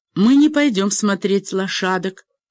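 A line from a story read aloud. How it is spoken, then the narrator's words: Shouted. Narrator (Russian): крикнул Алекс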